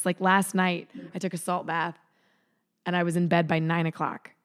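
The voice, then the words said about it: Hoarse, failing voice. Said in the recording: “my voice has started to, to go”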